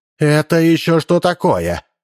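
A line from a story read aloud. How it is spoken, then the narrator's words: Confused bark. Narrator (Russian): Не разобравшись, рявкнула Ираида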